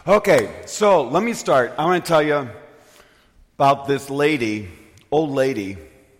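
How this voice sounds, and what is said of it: Voice slightly off from illness. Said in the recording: “I got a cold ... my voice gets a little weird”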